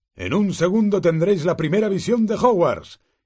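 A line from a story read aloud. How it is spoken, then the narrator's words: Exclamation over shoulder. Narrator (Spanish): exclamó Hagrid por encima del hombro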